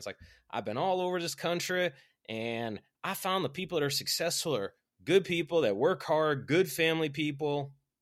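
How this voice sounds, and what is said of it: Put-on Southern Alabama accent. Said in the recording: “this guy has a very Alabama accent ... the Southern accent”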